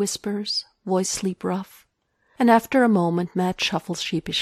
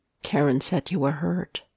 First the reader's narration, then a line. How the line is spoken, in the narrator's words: Matt says quietly